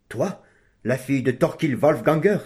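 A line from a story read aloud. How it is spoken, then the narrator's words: Surprised exclamation. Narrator (French): s'écria Cédric en reculant de surprise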